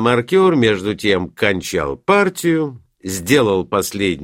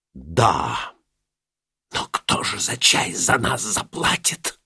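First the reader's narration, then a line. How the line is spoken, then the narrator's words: Mother answering in whisper. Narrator (Russian): отвечала мать шепотом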